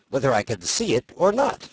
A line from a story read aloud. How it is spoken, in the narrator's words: cried Tweedledum